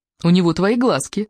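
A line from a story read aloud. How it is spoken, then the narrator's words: Bold joking. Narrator (Russian): смело пошутила Кора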